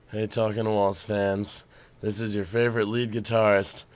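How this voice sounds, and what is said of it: Sick, low voice with no high range. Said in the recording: “I'm incredibly sick, so the entire upper half of my voice is totally gone ... the sexy low voice”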